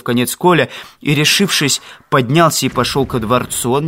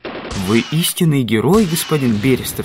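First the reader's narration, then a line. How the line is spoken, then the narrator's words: Plain. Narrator (Russian): сказал Жан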